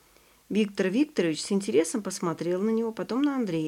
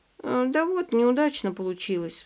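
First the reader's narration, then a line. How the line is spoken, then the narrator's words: Sigh. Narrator (Russian): вздохнул Ваня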